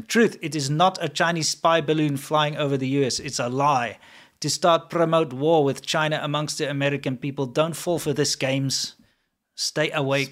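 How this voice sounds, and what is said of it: Put-on South African Afrikaans accent. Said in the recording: “I got to get the right accent ... Spot on, because you're South African, you can do your native accent very well ... my Afrikaans. Accent”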